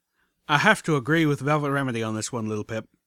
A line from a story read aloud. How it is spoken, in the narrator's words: said flatly